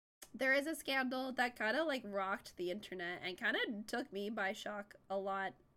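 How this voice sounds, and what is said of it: Sick voice, sounds like adolescent boy. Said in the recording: “I sound like a prepubescent teenage boy because I'm a little sick”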